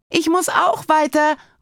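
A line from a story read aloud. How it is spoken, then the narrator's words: Hurried call after someone. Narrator (German): ruft Paula ihm hinterher und hat es plötzlich sehr eilig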